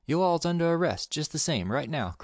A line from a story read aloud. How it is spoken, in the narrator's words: cried Gumsmith